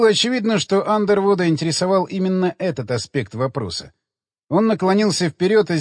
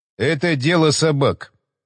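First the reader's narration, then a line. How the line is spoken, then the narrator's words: Indifferent announcement. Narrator (Russian): безразличным голосом оповестил Уилсон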